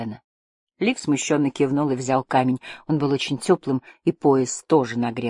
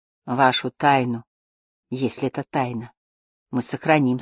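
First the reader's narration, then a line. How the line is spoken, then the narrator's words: Plain. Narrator (Russian): сказал Манус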